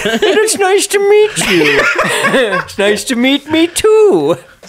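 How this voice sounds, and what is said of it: Imitates another person's voice. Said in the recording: “That's my Will Smith impression.”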